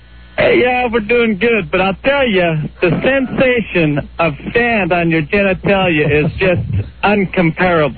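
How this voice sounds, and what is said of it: Poor imitation of another person's voice. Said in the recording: “the Rudy Martsky impersonator ... The guy's not even trying”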